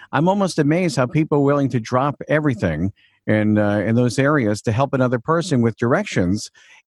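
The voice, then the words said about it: Slight Long Island New York accent. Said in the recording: “I'm from Long Island, New York, hence the accent a little bit.”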